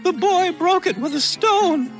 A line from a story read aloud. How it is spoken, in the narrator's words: shrieked Darzee's wife